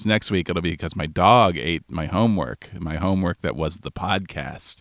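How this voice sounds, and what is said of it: Voice sounds ill. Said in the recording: “I sound a little different, I have COVID”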